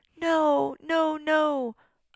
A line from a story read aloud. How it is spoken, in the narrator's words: I squeaked, dreading the thought of being plunged into darkness again